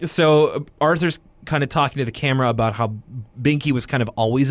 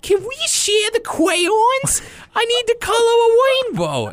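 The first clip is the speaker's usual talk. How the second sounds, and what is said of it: Put-on Boston accent. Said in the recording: “kind of gets a Boston accent”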